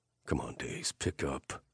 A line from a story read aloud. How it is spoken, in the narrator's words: I muttered